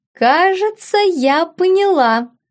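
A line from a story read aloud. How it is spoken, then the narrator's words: Girl, after laughing. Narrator (Russian): сказала девушка, отсмеявшись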